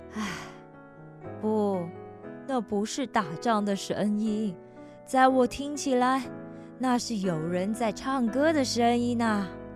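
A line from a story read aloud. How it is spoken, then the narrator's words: Sighing. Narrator (Chinese): 摩西叹了一口气说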